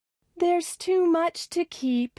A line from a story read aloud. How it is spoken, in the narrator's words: sighed Millie